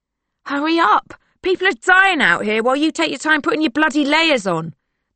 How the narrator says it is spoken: the driver yells

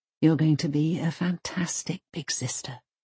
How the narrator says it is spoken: Mum whispers back

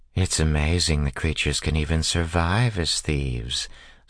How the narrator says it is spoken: said Carly, Tyden's young wife, in her normal purring voice

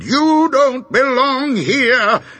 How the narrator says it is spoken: Another shouted

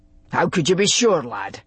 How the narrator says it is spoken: He asked rather sharply

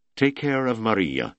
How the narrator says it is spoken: cried

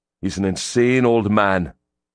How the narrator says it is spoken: Grim said bitterly

